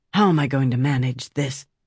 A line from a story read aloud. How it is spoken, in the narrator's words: she whispered